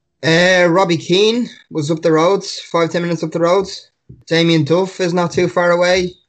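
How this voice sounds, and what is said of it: Strong Dublin Irish accent. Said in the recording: “Strong accent. ... Dublin.”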